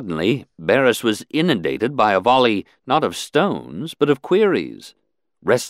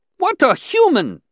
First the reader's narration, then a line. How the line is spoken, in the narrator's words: exclaimed another, interrupting